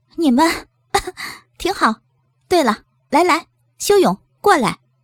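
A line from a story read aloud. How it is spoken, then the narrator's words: Soft muffled laugh. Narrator (Chinese): 苏英捂着嘴轻笑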